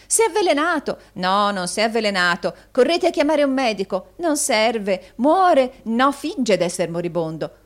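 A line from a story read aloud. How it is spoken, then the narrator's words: Fickle frantic cries. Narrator (Italian): con varie altre grida di meravigliosa volubilità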